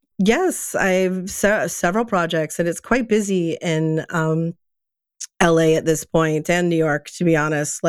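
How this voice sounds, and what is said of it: Froggy, hoarse voice. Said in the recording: “Pardon my voice... I'm just a little froggy today”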